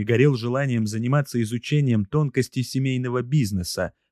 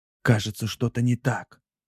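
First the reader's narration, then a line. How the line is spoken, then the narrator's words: Whisper. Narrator (Russian): прошептал один из них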